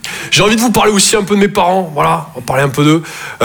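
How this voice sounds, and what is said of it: Toulouse French accent. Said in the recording (French): “Je viens de Toulouse, à la base. Ouais, ça s'entend un peu ... mon accent”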